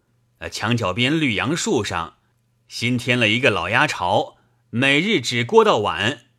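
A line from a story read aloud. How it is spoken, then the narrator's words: Laughing. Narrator (Chinese): 那种地道人笑道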